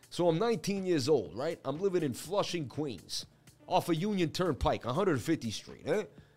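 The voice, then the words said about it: Put-on New York accent. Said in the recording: “I'm going to say it in an accent, but it's going to sound like a New York story ... I'm just going to tell it in a New York accent”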